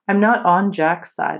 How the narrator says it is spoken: said calmly

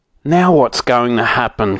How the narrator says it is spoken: cried Moonface

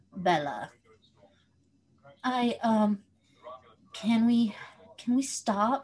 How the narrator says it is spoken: She asked between gasps

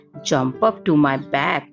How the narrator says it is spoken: said the fox

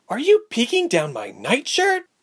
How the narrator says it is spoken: Ilse shrieked

